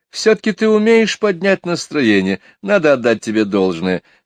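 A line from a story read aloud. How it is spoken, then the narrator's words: Moaning through laughter. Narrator (Russian): сквозь смех простонала она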